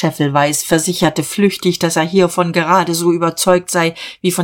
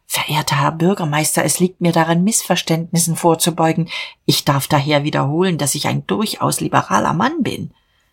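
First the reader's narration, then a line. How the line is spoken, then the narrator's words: Trembling whisper. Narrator (German): flüsterte bebend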